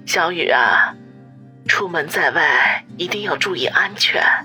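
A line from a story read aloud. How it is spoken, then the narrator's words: Sighing, caring. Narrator (Chinese): 陈兰芳叹口气，关心的说道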